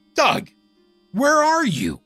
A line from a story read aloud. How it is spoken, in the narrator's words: I yelled at the top of my lungs